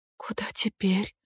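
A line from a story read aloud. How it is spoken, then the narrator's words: Whispered question. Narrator (Russian): шепотом спросила Эмми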